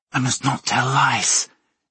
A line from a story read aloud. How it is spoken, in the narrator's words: she hissed, spluttering blood as she did